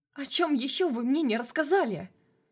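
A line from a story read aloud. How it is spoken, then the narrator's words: Frightened exclamation. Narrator (Russian): воскликнула испуганная женщина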